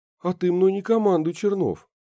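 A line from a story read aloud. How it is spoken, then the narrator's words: Exclaiming. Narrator (Russian): воскликнула Наташа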